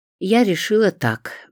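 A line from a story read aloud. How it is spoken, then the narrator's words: Sighing. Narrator (Russian): вздохнула Зоя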